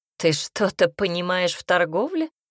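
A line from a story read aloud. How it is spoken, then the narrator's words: Skeptical snort. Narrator (Russian): хмыкнул Драгоер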